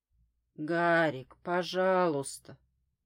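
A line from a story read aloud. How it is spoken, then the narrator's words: Pleading. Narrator (Russian): взмолилась я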